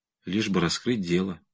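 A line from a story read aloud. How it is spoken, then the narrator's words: Resigned mumble. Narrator (Russian): обреченно пробормотал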